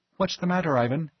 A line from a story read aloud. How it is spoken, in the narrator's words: Sachiko asked anxiously